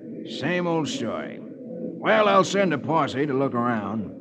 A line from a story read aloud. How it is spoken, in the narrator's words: The sheriff grunts